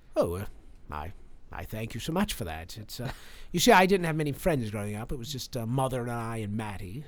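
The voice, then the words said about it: Strong British accent. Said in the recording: “Why do you have a British accent if you're from Michigan? ... It's very strong.”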